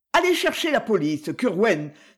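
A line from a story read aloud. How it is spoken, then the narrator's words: Peremptory tone. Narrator (French): dit Mademoiselle Cruikshank d'un ton péremptoire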